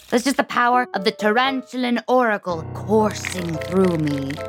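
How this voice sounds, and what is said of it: Weird put-on oracle voice. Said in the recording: “it might sound like I'm doing a weird voice”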